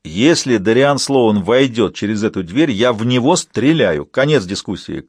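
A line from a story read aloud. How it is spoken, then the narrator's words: Shouting back. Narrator (Russian): крикнул в ответ Дэвид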